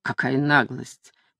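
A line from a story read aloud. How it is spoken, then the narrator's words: Grumble. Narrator (Russian): проворчал лорд Мэридан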